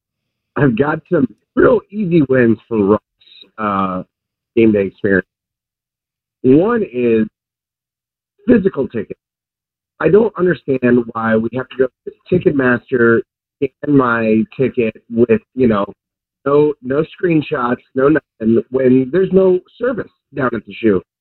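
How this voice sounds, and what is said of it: Slightly hoarse voice. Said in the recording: “my voice is a little hoarse from yelling”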